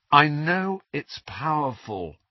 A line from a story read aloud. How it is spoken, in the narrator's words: said Harry wearily